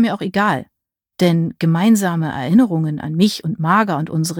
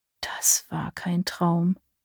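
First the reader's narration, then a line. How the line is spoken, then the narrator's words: Muttered. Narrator (German): murmelte ich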